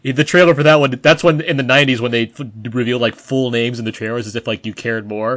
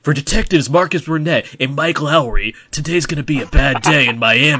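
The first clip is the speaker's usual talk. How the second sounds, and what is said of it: Dramatic movie trailer announcer voice. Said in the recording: “trailer voice for that one before Adon LaFontaine died”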